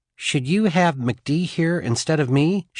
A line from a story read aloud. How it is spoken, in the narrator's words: she asked